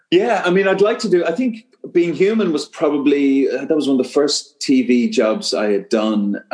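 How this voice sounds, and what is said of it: Light Irish accent. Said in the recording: “I'm hearing your Irish accent a little bit now”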